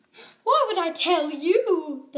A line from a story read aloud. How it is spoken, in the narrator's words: the fairy screamed